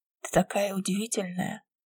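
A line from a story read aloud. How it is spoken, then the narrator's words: Murmur. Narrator (Russian): бормочет Дэвид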